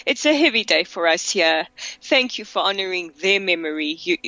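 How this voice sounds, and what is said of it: Emotional voice starting to break. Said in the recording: “as you can hear, my voice is starting to break”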